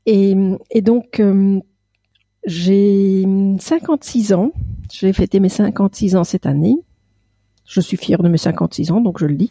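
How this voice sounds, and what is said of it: Slight Belgian French accent. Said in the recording (French): “Je suis belge ... J'ai peut-être un petit accent qui, qui va perturber. Un petit, tout petit”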